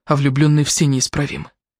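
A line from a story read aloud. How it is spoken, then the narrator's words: Sighing. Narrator (Russian): Она вздохнула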